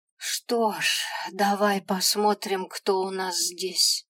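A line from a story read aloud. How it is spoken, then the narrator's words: Tired drawl. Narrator (Russian): Устало протянул чертенок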